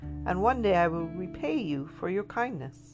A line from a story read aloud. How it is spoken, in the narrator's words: it cried